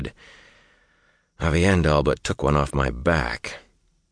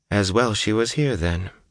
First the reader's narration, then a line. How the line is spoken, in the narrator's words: Moiraine said calmly